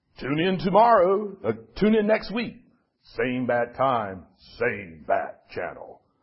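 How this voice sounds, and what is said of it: Poor imitation of a TV announcer. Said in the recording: “I love that announcer's voice, which I did a very poor imitation of”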